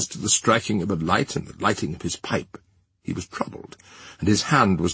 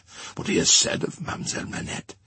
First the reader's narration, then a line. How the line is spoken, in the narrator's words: said Defarge in a low voice